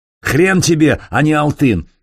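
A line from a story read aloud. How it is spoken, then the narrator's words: Shouting. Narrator (Russian): крикнул Марат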